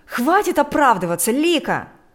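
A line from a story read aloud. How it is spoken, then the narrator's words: Distant shouting. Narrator (Russian): кричал Игорь из спальни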